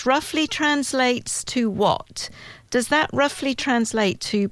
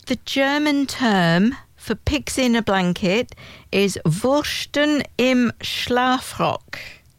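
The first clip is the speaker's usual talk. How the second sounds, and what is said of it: Put-on German accent. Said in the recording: “In my best German accent. ... Yeah, that was really ... good.”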